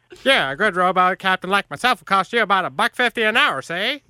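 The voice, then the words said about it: Weak old-timey 1920s gangster accent. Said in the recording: “Is that like a trucker's accent? ... I'm going to say it's like a 20s guy, like an old-timey guy. ... I was going for like a 20s gangster. ... that really wasn't that great”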